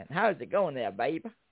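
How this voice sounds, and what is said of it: Attempted American accent sounding Irish. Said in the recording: “I'm practicing my American accent ... No, that sounds more Irish.”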